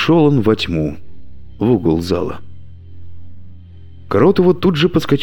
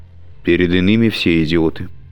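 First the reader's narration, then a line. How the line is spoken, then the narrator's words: Dry reply. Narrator (Russian): сухо ответила Ириша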